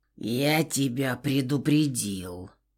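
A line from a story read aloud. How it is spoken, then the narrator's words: Growl. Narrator (Russian): прорычал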